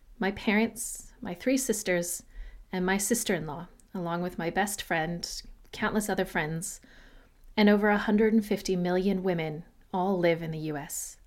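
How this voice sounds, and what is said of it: American accent. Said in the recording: “I'm a dual American-Australian citizen, raised in the US, as my accent may indicate.”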